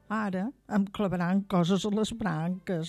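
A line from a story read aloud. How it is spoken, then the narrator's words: Tree grumbling. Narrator (Catalan): va remugar l'arbre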